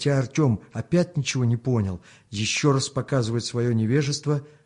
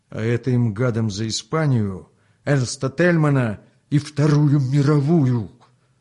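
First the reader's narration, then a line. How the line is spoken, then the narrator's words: Fierce, through clenched teeth. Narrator (Russian): Свирепо сжав зубы, процедил товарищ Русаков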